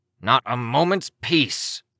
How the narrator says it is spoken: Cryptid growled

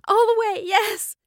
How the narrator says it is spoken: She sobbed

